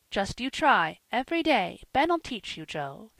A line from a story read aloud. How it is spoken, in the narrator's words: said his mother, eagerly